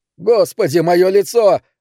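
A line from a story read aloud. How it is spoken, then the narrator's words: Yelled. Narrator (Russian): заорал Дэн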